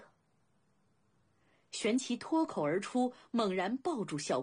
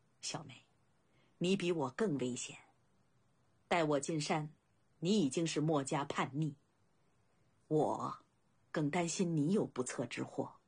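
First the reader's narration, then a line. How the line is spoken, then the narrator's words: Calm laughing. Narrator (Chinese): 孝公坦然笑道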